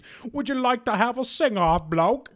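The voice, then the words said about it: Put-on British accent imitation. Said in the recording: “It's literally not what he sounds like at all. ... Doing a completely different British accent than the one he does.”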